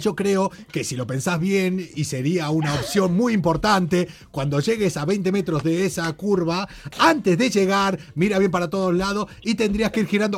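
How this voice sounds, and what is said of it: Put-on Argentine Spanish accent. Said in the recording (Spanish): “un GPS argentino y se aceptan acentos argentinos”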